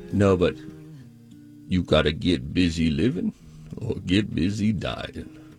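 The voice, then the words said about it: Imitates another person's voice, badly. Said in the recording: “That's a bad, bad impression.”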